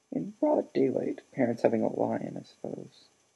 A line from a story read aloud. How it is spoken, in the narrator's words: he muttered distractedly